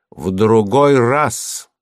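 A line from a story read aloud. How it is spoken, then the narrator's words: Loud reply. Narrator (Russian): громко ответил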